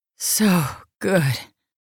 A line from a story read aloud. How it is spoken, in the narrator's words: she panted